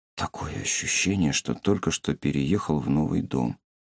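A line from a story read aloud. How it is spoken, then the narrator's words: Quiet. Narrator (Russian): Ису тихо сказал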